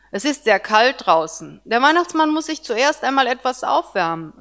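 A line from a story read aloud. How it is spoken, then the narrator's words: Plain. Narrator (German): sagte ich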